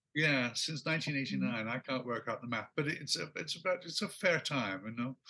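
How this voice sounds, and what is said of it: British accent. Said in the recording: “I still sound utterly British ... I think you've kept your accent.”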